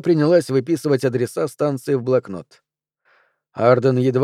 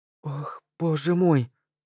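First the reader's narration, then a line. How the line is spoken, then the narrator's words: Whisper. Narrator (Russian): прошептала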